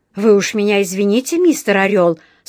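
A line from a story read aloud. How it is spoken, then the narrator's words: Loud. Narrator (Russian): сказал он громко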